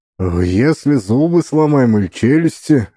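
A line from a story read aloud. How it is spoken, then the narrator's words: Confused. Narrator (Russian): растерянно спросил Вовка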